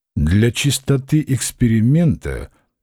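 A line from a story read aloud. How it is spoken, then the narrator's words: Slow speech. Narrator (Russian): медленно проговорил Клавдий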